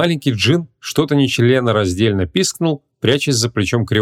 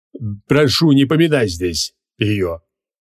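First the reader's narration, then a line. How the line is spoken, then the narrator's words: Irritated. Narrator (Russian): Раздраженно поморщился Эльгор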